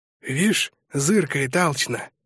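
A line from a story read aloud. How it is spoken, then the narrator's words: Whisper. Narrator (Russian): шепнул Быстряков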